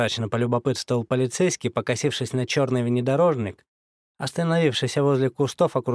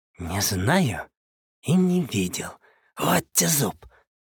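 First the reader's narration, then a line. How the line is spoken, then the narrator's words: Brash exhaled. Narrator (Russian): Совсем уж развязанно выдохнул одноглазый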